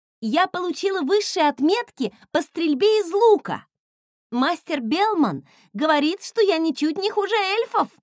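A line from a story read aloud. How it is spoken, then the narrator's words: Excited shout. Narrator (Russian): Восторженно закричала она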